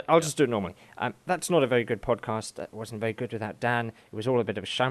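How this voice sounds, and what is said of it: Usual voice. Nothing is said of it.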